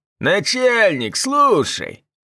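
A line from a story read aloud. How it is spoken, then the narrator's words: Detainee's nasal whine. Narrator (Russian): прогнусавил задержанный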